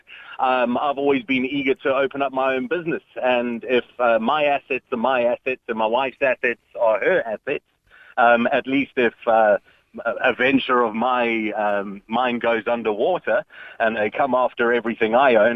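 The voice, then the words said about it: Non-Irish foreign accent. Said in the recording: “you don't have an Irish accent”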